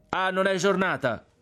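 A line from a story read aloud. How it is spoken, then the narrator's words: Shouted, friar. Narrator (Italian): gridò il frate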